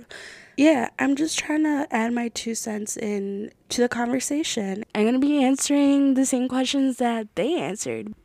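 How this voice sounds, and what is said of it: Voice cutting in and out. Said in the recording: “Please excuse my voice. It's currently like coming in and out. ... It's just a cold or something.”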